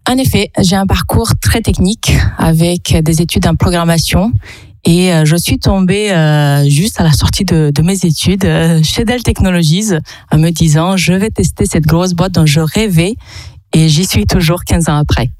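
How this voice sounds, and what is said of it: Charming Romanian accent in French. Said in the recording (French): “votre petit accent qui est charmant ... Je viens de Roumanie.”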